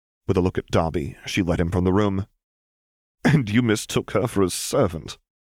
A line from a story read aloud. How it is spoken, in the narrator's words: laughed Tom, not caring if Miss Granger was out of earshot yet or not